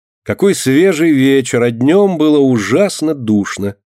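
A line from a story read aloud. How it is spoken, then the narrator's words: Loud. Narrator (Russian): громко говорит она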